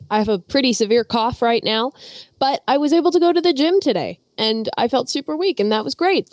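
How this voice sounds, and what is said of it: Hoarse, congested voice from a cold. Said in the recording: “I have a head cold. I did lose my voice.”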